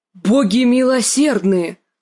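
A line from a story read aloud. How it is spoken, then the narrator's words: Shocked exclamation. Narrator (Russian): воскликнул сир Бриндон, когда они увидели развалины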